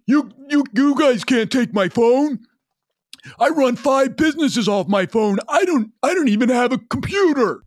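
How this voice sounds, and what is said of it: Imitates another person's voice. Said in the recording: “pretty good imitation ... This is kind of how he sounds.”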